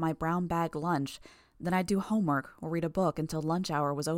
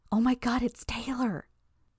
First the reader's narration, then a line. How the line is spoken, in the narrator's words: one of the girls on the outside exclaimed with glee